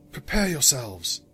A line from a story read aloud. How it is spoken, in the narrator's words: Luna whispered